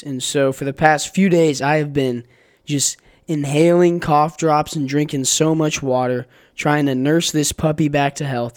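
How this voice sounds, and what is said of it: Raspy, strained voice. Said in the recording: “my voice is a little bit raspy... I had no voice”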